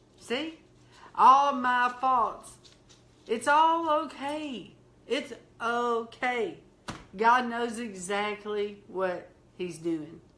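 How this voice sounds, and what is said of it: Slow Southern country accent. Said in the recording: “I sound so country, so southern ... we love your accent ... you're slow”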